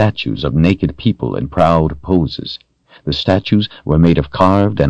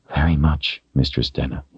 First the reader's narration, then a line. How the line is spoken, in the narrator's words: whispered